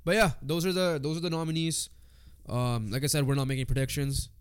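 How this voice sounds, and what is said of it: Congested, weird-sounding voice. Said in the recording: “I'm congested ... my voice sounds weird”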